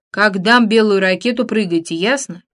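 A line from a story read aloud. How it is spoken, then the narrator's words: Young man's bass announcement. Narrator (Russian): Пилот, паренек лет на 5 моложе меня, объявил нам басом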